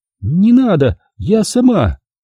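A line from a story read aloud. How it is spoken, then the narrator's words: Weak squeak. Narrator (Russian): слабо пискнуло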